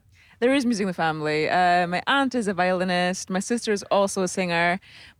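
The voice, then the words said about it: Noticeable foreign accent. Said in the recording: “You have this gorgeous accent. Now, I know you're originally from Germany.”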